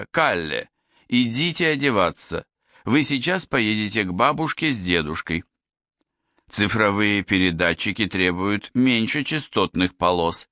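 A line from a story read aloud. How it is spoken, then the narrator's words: Plain. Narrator (Russian): сказала Анна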